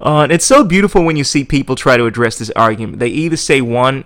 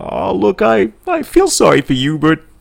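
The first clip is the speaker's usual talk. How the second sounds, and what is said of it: Alien character voice. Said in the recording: “That's me doing my alien impersonation.”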